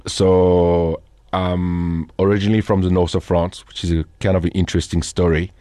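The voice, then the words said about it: French accent. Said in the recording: “I've got a French accent. ... I hear that. ... Cannot hide it after 18 years in South Africa. It's still there.”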